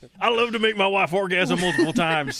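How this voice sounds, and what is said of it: Put-on Southern hillbilly accent. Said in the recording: “Why is it so hard not to read all of these in a southern accent? ... All of these people in my brain are hillbillies.”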